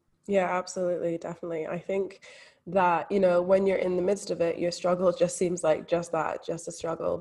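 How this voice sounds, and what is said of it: Slight Scottish accent. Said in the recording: “our viewers might hear a little bit of an accent ... I'm actually from Scotland, but not a lot of people pick up on that accent ... my accent isn't Australian”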